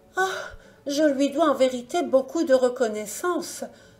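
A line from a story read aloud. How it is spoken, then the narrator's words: Bird's sighing exclamation. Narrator (French): s'écria en soupirant l'oiseau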